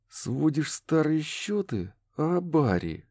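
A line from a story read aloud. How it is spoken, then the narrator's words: Hissed from doorway. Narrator (Russian): прошипел от двери Роуэн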